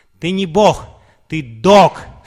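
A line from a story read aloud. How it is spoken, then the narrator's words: Shouting at full volume. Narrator (Russian): Шрила Прабхупада закричал на полную мощность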